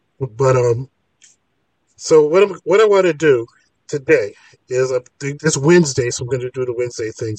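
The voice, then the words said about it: Voice affected by a cold. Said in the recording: “forgive my voice because I think I'm coming down with a cold”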